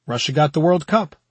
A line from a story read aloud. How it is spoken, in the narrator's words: Randall said